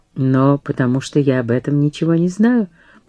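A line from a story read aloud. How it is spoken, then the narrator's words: Simple and calm. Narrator (Russian): просто и спокойно сказал Абу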